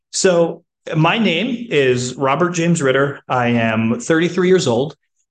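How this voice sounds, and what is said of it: Slightly off, wacky voice. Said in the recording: “My voice is a little wacky. I was sick earlier this week, and so it's still kind of coming back ... my voice is a little off”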